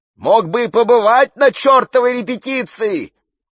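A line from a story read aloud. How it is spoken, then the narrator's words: Shouting. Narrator (Russian): кричала Сирина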